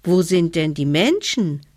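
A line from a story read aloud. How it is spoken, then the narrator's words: Small child calling upward. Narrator (German): rief der kleine Hevelmann hinauf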